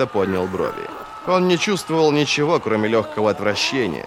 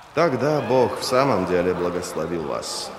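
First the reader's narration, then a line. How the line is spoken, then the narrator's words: Mumbled. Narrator (Russian): пробормотал он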